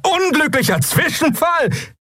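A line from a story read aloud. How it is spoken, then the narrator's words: Bursting laugh. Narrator (German): Der bärtige Mensch lachte auf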